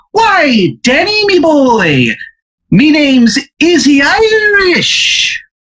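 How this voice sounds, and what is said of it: Bad fake Irish accent. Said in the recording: “That's how fucking bad and Irish it is ... his accent is horrendous. It's like barely close.”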